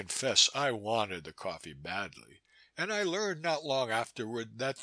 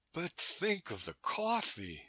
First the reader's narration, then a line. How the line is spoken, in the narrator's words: I cried